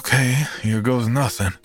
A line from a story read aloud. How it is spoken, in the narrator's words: let out a defeated sigh, and said